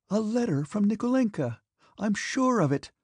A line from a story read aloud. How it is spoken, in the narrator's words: exclaimed Natasha